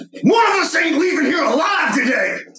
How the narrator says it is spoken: I yell

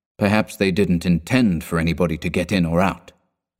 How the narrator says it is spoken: said flatly

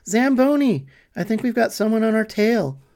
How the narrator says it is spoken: I called out toward the driver's compartment

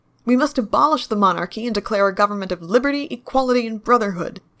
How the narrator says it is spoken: shouted the youngest counselor

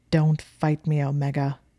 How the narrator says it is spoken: said angrily

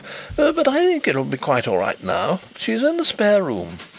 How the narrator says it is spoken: he reported with a nervous laugh

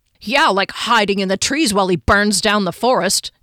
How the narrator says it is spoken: Kier said crossly

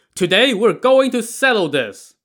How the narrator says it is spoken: This warrior shouted

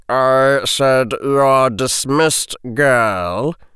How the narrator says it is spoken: said the sneering voice

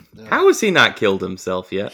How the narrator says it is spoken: He laughed about it

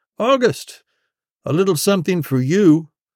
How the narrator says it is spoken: one of the voices called out

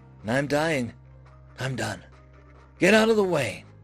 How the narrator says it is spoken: In a tired voice, Crown answered

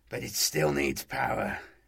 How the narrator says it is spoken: he sighed deeply

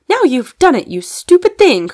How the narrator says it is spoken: cried Fanny, both angry and dismayed

